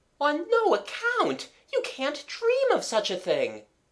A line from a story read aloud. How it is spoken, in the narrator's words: exclaimed Amanda